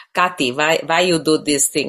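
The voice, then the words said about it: Imitated thick Hungarian accent. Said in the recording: “My parents spoke with very thick Hungarian accent, and they speak like this ... my mother especially”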